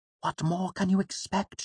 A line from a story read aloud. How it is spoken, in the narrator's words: she asked him quietly